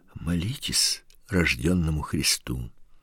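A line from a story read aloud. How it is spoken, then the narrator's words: Old man's sighing whisper. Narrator (Russian): Старик тоже вздохнул и таким же шепотом сказал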